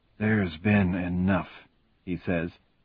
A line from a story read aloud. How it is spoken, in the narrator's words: his voice a murmur that can barely be heard over the rain